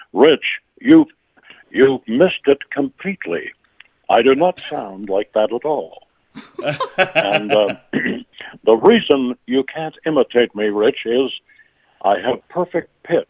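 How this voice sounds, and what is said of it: Imitates another person's voice. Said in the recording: “Tony Randall? He hated my impression,”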